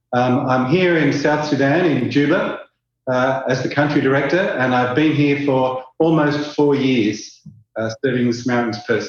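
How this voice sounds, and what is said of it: Australian accent. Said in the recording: “I'm an Australian. You might pick that up from my strange accent.”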